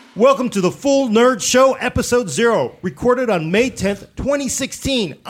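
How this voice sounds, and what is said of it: Excited yelling. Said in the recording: “I'm yelling because I'm excited.”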